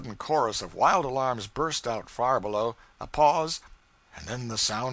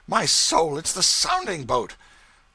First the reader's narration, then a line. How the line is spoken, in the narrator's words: Thornburg exclaimed